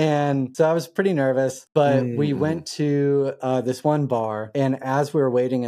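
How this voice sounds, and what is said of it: Usual voice. Nothing is said of it.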